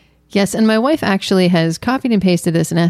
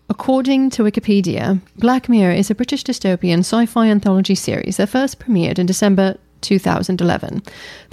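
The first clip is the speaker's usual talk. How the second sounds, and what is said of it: Put-on British accent. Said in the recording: “It's British. You have to do it in a British accent.”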